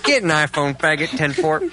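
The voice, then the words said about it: Imitated voice like CB radio talk. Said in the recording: “He sounds like he's constantly on the CB radio ... great impression ... It's exactly him”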